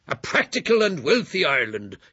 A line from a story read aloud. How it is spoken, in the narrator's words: shouted Doyle